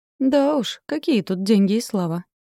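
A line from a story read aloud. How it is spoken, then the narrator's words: Laughing. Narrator (Russian): Павел рассмеялся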